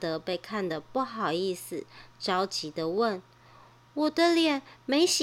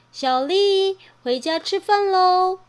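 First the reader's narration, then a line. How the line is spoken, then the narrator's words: Mother calling out. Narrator (Chinese): 妈妈在叫她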